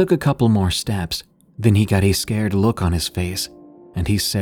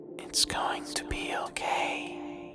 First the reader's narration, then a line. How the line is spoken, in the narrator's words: the faintest whisper, a woman's voice saying